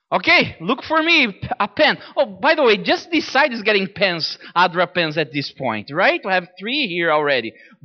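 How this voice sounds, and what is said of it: Strong Brazilian accent. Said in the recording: “I have a strong accent ... Brazil, that's right. I grew up in Brazil.”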